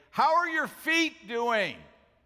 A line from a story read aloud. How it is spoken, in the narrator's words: shout and say